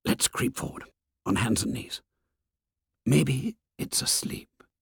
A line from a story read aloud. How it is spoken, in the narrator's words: Jack whispered